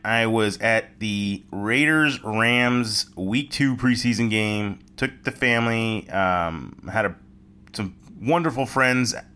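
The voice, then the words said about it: Voice sounds a little different. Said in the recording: “As you can tell, my voice is a little different... that's why my voice is a little different”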